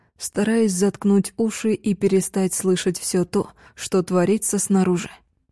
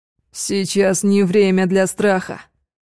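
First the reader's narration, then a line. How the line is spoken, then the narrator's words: Despairing roar. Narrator (Russian): Взревел, но скорее от отчаяния, чем от гнева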